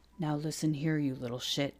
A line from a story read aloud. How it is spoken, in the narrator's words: Cleary growled